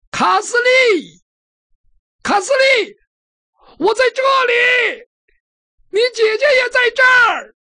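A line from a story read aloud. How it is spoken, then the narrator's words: Loud shouting. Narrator (Chinese): 他大声地喊着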